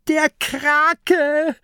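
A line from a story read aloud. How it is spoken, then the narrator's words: Shrieking. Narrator (German): kreischt Mathilda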